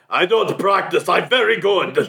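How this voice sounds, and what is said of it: Put-on Slavic accent. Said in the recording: “Why are we giving her that accent? ... You think Slavic.”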